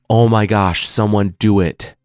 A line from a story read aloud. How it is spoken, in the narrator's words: Shere Khan roared